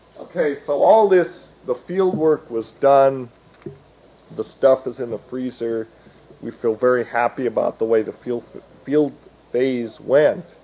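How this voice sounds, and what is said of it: Strained, fading hoarse voice. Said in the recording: “I'm losing my voice.”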